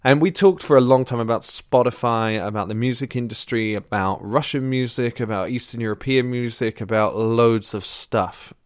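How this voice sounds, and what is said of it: Sick, unusual-sounding voice. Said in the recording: “I was really ill at the time of recording, so you will hear that my voice sounds a little like this. That is not normally as my voice sounds. ... I was quite sick at the time, and I'm actually sick now”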